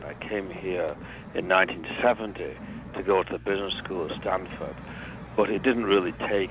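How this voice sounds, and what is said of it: English accent. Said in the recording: “as you can tell from my accent, I'm originally from England”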